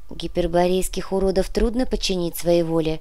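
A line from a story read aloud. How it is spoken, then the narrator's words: Soft old woman's remark. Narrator (Russian): мягко заметила Мирослава, самая старая из всех жриц Зеленого дома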